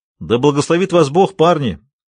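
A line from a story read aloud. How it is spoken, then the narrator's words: Shouting after someone. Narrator (Russian): крикнул вслед Энди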